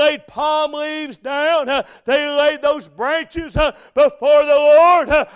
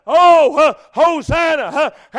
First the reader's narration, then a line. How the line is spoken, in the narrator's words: They cried